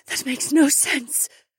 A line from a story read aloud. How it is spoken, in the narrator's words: Anwar panted